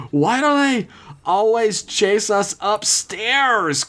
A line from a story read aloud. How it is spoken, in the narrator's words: Chris screamed out to the heavens, even more so than Peggy